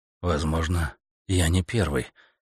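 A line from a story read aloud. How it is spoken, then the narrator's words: Muttered. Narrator (Russian): пробормотал Стентон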